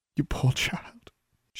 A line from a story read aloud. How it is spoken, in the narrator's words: she murmured